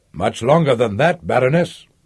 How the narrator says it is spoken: the official answered stiffly

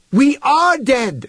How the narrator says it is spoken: shouted Human

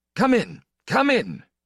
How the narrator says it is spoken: Count Orlant was shouting from the front room in his unexpectedly strong voice

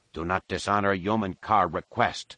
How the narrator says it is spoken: he growled in her face

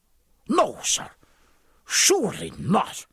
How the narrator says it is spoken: said Dylan, angrily

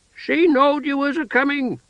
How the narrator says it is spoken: bawled

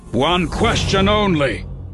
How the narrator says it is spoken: Tabor snarled

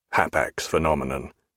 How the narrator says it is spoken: muttered Jack

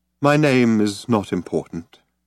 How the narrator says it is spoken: he said

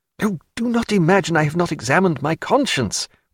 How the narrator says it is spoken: cried Stephen

